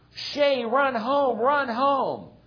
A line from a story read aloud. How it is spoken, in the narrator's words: the boys from both teams were shouting